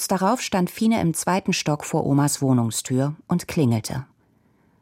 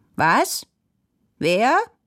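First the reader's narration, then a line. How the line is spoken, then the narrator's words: Squeaky old woman's call. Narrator (German): rief Oma mit ihrer fiepsigen Stimme durch die Tür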